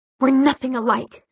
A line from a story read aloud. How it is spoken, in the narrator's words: she spat